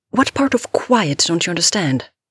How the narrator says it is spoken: Andy shouted

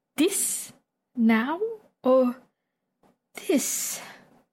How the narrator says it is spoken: Viago asks softly

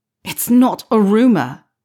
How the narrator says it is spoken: Harry spat

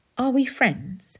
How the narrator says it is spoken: said Bharadwaj hesitantly

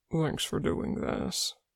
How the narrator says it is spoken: Wanwu mumbled, red-faced

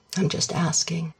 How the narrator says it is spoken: says his dad gently

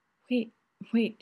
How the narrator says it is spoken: he gasps

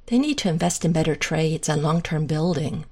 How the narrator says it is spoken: Shane sighs

